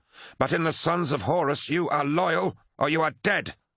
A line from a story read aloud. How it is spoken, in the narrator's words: snarled Abaddon